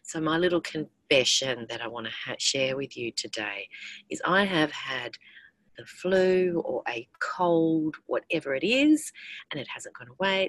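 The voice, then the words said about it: Strained voice, not fully normal. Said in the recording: “you can hear my throat, my voice is not absolutely back to normal”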